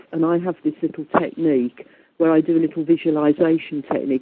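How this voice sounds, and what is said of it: Strong English Midlands accent. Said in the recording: “my wonderful English accent, she said, with a bit of sarcasm, because I've got a very Midlands accent”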